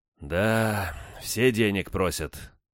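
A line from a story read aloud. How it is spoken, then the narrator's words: Sighing. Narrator (Russian): премьер вздохнул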